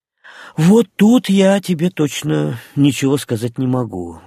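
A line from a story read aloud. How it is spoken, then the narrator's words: Sighing. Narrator (Russian): вздохнул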